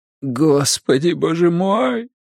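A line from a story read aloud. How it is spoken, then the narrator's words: Moan. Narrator (Russian): простонал Коронцис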